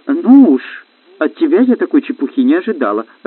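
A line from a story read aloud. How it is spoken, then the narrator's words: Laughing. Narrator (Russian): рассмеялась принцесса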